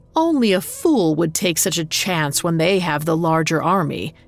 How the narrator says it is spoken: he sneered

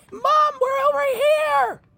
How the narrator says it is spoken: scream

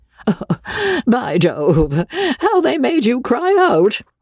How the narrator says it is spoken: said Joe, exploding in a fit of laughter

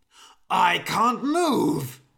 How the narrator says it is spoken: shouted the old man

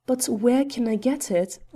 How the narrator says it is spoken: I cried

